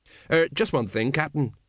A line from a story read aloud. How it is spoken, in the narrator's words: said Colon urgently